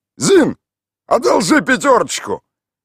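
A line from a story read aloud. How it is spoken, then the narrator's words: Shouting. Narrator (Russian): выкрикнул Михаил Иванович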